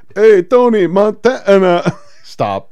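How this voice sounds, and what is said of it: Bad put-on Cuban accent. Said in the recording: “Robert Loggia doing a Cuban accent is one of the worst things I've ever seen.”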